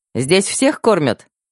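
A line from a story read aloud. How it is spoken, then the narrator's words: Cheerful young woman's question. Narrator (Russian): весело поинтересовалась девушка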